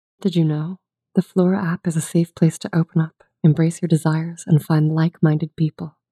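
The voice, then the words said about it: Sultry female voice. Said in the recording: “do a sultry female voice”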